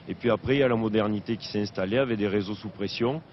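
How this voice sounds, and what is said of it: Regional French accent. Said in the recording (French): “quand on entend cet accent”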